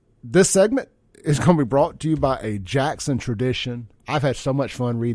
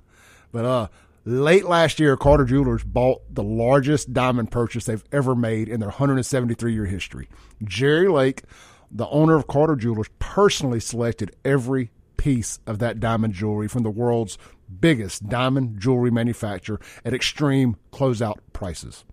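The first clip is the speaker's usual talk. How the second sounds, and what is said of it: Impression of Jerry Lake. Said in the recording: “my best Jerry Lake impression”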